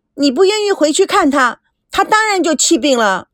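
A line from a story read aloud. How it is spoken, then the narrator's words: Loud shouting. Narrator (Chinese): 赵美娇……大声的叫着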